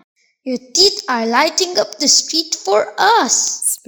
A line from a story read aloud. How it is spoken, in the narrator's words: Sparrow chuckled